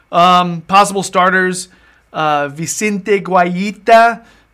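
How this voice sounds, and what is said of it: Put-on Spanish accent on a name. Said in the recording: “I like that, my Spanish accent.”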